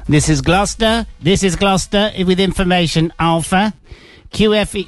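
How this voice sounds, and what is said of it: Imitates an automated airport information broadcast. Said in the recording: “The ATIS isn't working ... I'm not doing that impression anymore”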